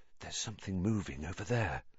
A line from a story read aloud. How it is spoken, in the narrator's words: Harry breathed